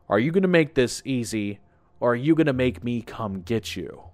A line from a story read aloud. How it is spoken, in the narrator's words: It said with a cold chuckle